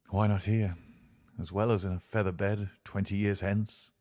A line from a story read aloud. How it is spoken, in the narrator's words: he muttered